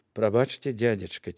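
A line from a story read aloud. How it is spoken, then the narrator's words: Quiet, touched. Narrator (Belarusian): ціха сказала Яноўская, кранутая ўвагай апекуна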